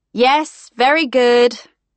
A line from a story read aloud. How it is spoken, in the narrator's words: shouted after him